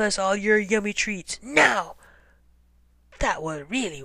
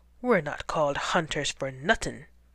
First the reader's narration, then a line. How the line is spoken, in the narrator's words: they growled